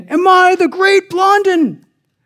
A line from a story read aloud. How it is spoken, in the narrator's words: He cried out again